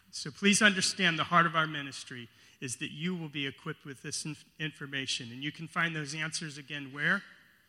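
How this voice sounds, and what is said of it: American accent. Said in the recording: “my funny accent. I come from the United States ... California”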